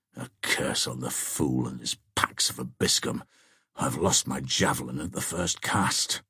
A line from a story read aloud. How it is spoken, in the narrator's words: answered Cedric in good Saxon, and at the same time muttered to himself